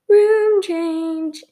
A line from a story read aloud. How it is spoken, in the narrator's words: she squealed